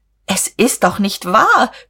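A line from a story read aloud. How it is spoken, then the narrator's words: Shrieking out. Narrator (German): Guste kreischte auf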